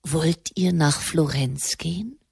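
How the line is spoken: Quiet question. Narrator (German): Der Papst fragte leise

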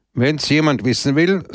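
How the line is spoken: Said loudly. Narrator (German): sagte er laut

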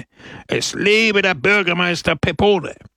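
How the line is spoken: Crowd roaring. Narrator (German): brüllte die Menge

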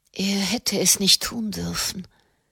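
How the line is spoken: Murmured. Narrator (German): murmelte sie

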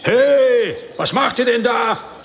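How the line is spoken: Calling out. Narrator (German): rief jemand

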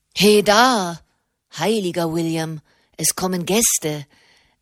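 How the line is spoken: Call in perfect English. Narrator (German): rief eine Stimme in perfektem Englisch

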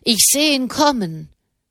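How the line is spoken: Calling down from above. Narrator (German): rief der Mann herunter

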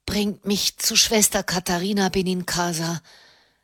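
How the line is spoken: Wooden pleading voice. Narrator (German): bat er mit hölzerner Stimme

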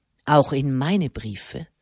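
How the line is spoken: Dry inquiry. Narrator (German): erkundigte sich der Erzbischof trocken

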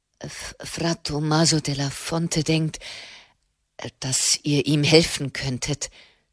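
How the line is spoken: Stammering. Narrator (German): stammelte er

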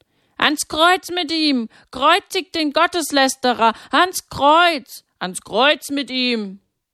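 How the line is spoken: Shouting. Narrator (German): schreien

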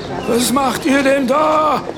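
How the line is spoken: Indignant woman's shout. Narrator (German): schrie eine Frau empört

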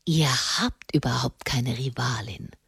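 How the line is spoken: Hoarse whisper. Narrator (German): flüsterte er heiser

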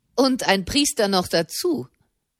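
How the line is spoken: Mocking. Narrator (German): fügte ein Mann höhnisch bei

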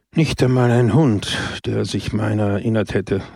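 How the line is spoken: Sigh. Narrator (German): seufzte Don Camillo

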